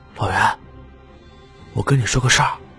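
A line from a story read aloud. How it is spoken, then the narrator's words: Hushed, hesitant voice. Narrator (Chinese): 池小池小声嘟囔了一句，有些为难，压低了点声音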